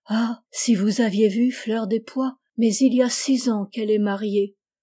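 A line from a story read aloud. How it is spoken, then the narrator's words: Sighing. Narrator (French): Il ne put cependant s'empêcher de dire, en soupirant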